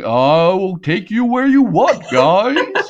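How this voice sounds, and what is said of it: Ridiculous put-on character accent. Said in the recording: “talks in this ridiculous accent.”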